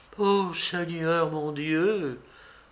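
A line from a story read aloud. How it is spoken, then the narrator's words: Old woman sighing. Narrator (French): soupira la vieille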